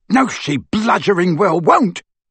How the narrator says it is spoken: bellowed Amicus

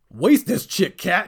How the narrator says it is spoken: shouted

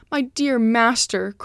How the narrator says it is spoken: cried Cacambo sadly

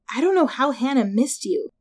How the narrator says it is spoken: Jessica sighed

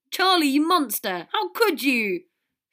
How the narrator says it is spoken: Fred and George cried out

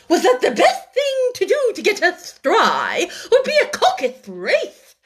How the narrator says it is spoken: said the dodo in an offended tone

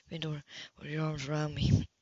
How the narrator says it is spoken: he said in a low, soft tone

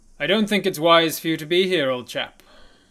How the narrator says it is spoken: says out in a loud voice

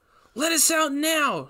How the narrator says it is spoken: shouted

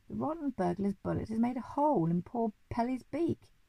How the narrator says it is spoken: cried the monkey

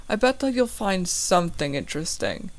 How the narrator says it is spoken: she sighs

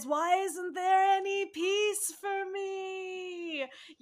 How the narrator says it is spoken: he yells at the skies

